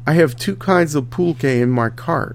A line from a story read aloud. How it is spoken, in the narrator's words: said the vendor